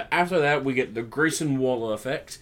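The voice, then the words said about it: Put-on Australian accent. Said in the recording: “I always say it in an Australian accent”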